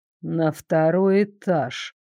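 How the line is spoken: Thoughtful drawl. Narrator (Russian): задумчиво протянул Дарек

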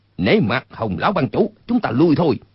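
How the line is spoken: Called out. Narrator (Vietnamese): kêu lên

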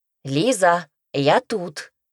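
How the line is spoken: Loud. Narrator (Russian): громко сказал он

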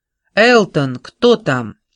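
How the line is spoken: Shout from inside house. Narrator (Russian): Голос из дома крикнул

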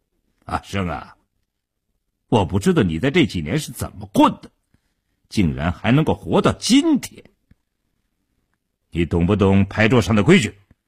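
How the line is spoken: Cold, hostile. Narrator (Chinese): 一直笑容可掬的傻彪当即翻了脸，冷冷地说道

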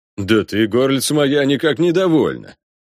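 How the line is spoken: Booming, growing irritated. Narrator (Russian): прогудел, начинающий раздражать Бонифаций

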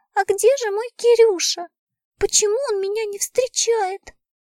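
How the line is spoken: Thin squeaky voice. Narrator (Russian): Саша тоненьким голоском пропищала

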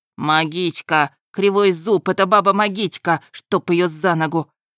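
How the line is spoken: Loud shout, cursing. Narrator (Russian): Громко крикнул и выругался один из упавших

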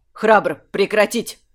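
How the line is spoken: Barked. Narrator (Russian): Рявкнул он

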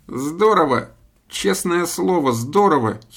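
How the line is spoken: Giggling to himself. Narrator (Russian): хихикал про себя режиссер

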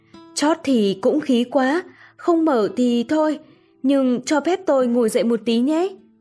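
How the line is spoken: Smiling joke. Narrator (Vietnamese): Chàng mỉm cười nói đùa

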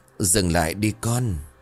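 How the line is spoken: Strained voice. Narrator (Vietnamese): Cô nói bằng giọng khó nhọc

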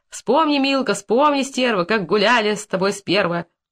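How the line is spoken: Shouted out. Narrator (Russian): Иван Павлович выкрикнул

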